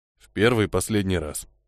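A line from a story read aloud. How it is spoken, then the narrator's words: Muttering. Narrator (Russian): пробормотал тот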